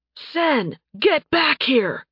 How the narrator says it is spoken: he shouted

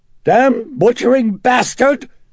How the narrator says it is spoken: It shrieked in that hoarse, British-accented voice

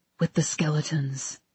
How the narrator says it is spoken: he whispered

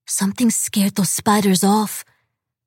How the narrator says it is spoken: she said in a frightened whisper

